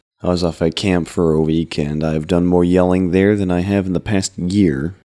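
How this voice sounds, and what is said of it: Unusually deep, husky voice. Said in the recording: “sultry tones ... ever-so-deep voice”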